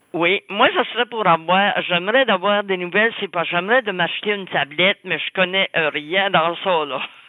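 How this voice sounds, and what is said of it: New Brunswick French accent. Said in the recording (French): “un accent superbe du Nouveau-Brunswick ... votre accent du Nouveau-Brunswick”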